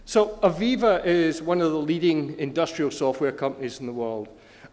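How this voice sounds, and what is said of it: Scottish accent. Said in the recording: “comes with a Scottish accent”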